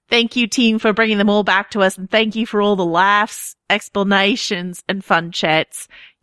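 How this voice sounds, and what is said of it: Fairly good put-on Australian accent. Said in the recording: “I'll spare you all the Australian accent. ... That was very good. ... in terms of not veering into other accents and not becoming like super offensive to my ear ... you did a very good job.”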